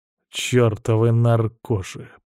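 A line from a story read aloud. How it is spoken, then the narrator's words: Grumbling. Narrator (Russian): проворчал Крест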